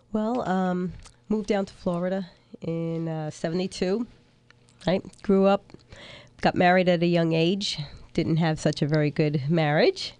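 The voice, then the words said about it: Brooklyn New York accent. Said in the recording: “from Brooklyn, New York. So you'll recognize the accent right off.”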